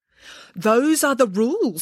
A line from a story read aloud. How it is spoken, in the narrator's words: said the elf sternly